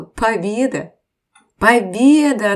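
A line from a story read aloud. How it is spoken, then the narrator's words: Drunk, laughing. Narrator (Russian): Напившись, Петр смеялся и сказал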